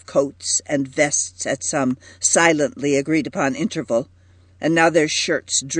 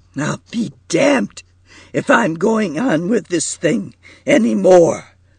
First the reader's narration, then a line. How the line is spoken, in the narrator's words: cried Markey thickly